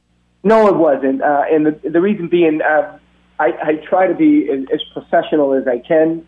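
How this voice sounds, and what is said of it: Thick Boston accent. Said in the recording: “You have a thick Boston accent.”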